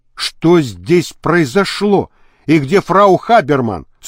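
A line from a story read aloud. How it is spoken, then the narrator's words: Stern question. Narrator (Russian): строго спросил он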